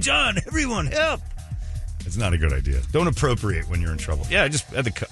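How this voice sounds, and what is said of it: Usual voice. Nothing is said of it.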